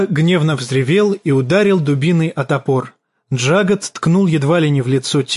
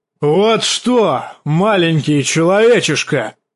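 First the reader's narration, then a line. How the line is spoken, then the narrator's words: Roar. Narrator (Russian): взревел Шагга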